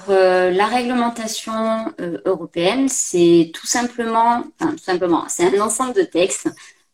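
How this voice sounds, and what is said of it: Slight accent. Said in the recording (French): “le petit accent”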